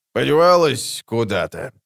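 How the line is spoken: Mumble. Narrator (Russian): пробормотал краснолюд

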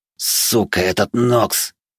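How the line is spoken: Angry panting hiss. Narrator (Russian): злобно прошипел один из пыхтящих мужиков

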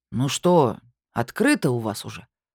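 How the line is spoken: Gloomy grumbling sorcerer. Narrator (Russian): хмуро проворчал колдун

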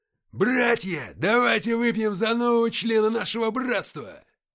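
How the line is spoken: Roaring toast. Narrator (Russian): взревел Антоха

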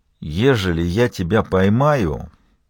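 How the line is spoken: Muttered through teeth. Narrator (Russian): процедил он про себя

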